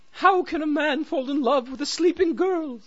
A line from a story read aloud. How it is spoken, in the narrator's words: sobbed the queen